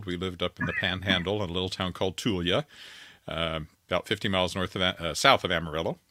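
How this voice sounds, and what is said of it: Slight Texan twang. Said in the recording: “you still have the twang. That's pretty good. ... they thought I sounded like a cowboy”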